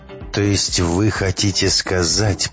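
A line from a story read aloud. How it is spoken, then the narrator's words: Creaky rasping voice. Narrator (Russian): проскрипел Боровский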